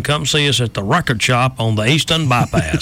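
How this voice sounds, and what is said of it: Impression of Raymond Cohen. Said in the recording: “That's my Raymond Cohen impersonation.”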